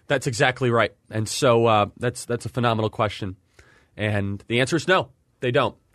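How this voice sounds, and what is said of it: Strained, hoarse voice. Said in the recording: “I've been losing my voice because I've been doing so many podcasts”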